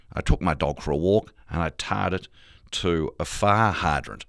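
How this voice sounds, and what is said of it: Malcolm Turnbull impression, long I sounds. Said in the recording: “your impersonation of Malcolm Turnbull ... my vocal anchor was fire hydrant ... Long I sound on fire, long I sound on hydrant, and hitting that hard T at the end”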